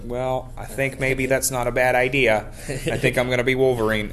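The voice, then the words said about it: Bad impression of a Canadian actor. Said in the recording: “That's the worst impression I've ever heard. Horrible.”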